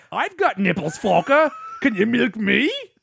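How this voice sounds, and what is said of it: Movie-line impression with shifting accents. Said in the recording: “Robert De Niro saying ... You just changed the accent in that statement three different times.”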